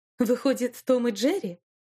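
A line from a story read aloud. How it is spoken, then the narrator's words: Laughing, nearly choking. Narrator (Russian): рассмеялся, едва не поперхнувшись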